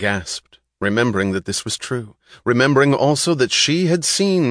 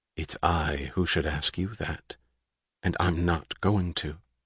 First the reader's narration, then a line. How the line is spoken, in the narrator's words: She said quietly